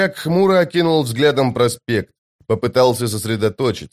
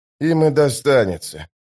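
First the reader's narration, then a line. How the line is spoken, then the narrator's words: Sigh. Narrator (Russian): вздохнул Остряк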